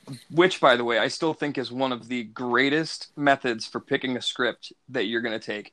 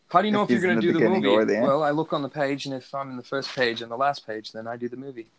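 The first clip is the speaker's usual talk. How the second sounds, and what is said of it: Poor imitation of another person's voice. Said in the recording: “I do a really bad Michael Caine impersonation... Michael Caine is one of my worst. I cannot get that man's voice down. ... He's like the English Morgan Freeman.”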